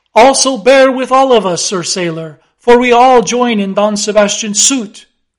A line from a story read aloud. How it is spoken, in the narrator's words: cried the company with exceeding interest